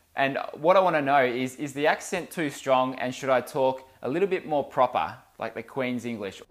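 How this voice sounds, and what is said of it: Strong accent, water with a D. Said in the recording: “my accent was a little too strong ... I say water sometimes, it sounds like I'm saying it with a D”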